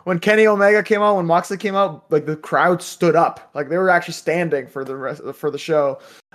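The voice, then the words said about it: Strained, worn-out voice. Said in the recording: “My voice is kind of gone because of the last night, actually.”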